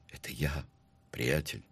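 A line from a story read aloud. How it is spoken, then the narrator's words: Quiet, in Spanish. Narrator (Russian): тихо ответил Питер Блад по-испански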